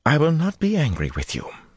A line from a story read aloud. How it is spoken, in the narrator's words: she went on in a much milder tone